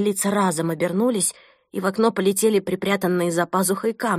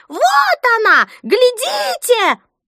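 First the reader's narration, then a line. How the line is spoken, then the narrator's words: Shrill old woman's shriek. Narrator (Russian): беззубая старуха пронзительно завизжала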